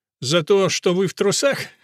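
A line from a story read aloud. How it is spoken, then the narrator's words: Laughing. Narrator (Russian): засмеялась Лолита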